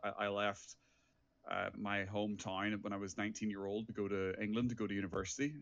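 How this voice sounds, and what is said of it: Irish accent. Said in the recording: “from my accent, I am originally from Ireland.”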